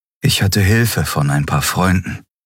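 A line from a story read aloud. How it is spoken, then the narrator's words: Warm voice. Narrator (German): sagte er mit warmer Stimme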